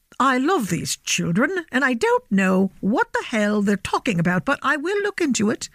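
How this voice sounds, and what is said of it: Imitated posh British royal accent. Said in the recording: “I have to do it in the Queen accent. ... I might have totally, not accurately, portrayed the Queen's”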